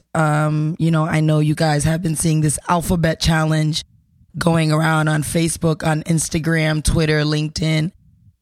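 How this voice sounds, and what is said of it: Voice not fully back to normal. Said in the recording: “I'm still recovering from a cold. So my voice is not 100% back yet.”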